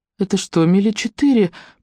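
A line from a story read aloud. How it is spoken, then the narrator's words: Moaned from bed. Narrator (Russian): простонала с кровати Элли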